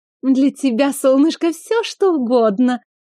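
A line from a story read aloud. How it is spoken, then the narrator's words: Woman's purr. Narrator (Russian): Промурлыкала брюнетка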